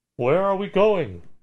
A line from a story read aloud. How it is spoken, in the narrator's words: Someone called out